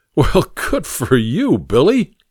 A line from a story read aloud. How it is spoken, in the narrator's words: laughed Dobley